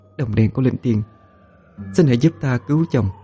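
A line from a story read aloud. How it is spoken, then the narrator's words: Soft murmur. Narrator (Vietnamese): cô thủ thỉ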